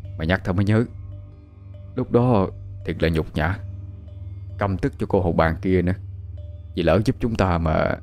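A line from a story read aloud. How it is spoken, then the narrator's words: Bitter, holding back tears. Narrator (Vietnamese): Sủ khẽ nuốt nước mắt vào bên trong, cay đắng nói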